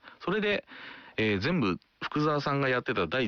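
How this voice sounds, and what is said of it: Usual voice. Nothing is said of it.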